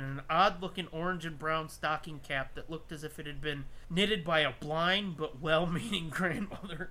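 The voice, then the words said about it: Put-on Wisconsin accent. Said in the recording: “I don't know why I decided to throw on a weird fucking Wisconsin accent there.”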